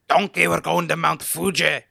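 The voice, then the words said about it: Scottish-accented cartoon character voice. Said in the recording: “Like I'm Scottish. ... That was a Shrek impression.”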